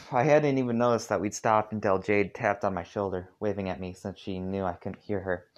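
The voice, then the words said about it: Half-hearted southern accent. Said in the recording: “naturally left my voice with a half-hearted southern accent ... why I sound like I'd narrate Dave”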